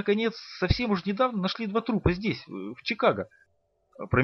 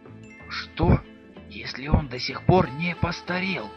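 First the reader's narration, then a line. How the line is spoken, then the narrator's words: Whispered. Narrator (Russian): прошептал он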